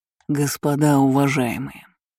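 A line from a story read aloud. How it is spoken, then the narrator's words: Vibrating velvety voice. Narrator (Russian): произнес он своим вибрирующим бархатным голосом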